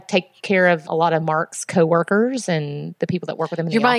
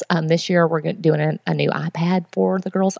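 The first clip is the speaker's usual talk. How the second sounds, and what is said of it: Whispering. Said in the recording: “I'm whispering”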